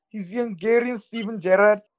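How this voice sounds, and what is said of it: Put-on Scouse accent. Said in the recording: “In my best Scouse accent”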